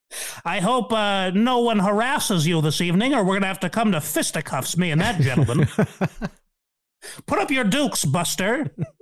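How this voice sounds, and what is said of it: Exaggerated macho tough-guy voice. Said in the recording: “as you can tell by my voice, I'm a real man's man. I'm pretty macho.”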